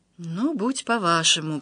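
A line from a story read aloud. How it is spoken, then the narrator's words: Sad whisper. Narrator (Russian): прошептал индус и грустно улыбнулся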